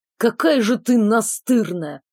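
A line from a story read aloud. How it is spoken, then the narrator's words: Muffled grumbling. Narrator (Russian): проворчал, зарываясь носом в моих волосах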